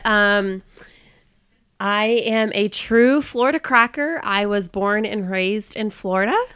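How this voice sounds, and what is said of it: Congested voice from head cold. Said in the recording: “I am fighting a terrible head cold, so forgive my voice.”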